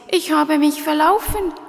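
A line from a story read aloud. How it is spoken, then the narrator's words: Sobbing. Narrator (German): schluchzte er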